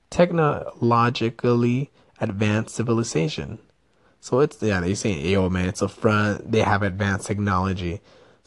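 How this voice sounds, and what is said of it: Mexican accent. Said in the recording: “my Mexican accent is coming out”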